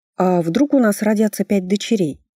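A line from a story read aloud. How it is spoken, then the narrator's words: Plain question. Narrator (Russian): спросила я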